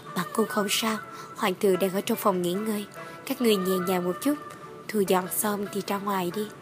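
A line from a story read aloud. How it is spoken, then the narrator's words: Soft laugh, reply. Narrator (Vietnamese): Ta khẽ cười một tiếng, đáp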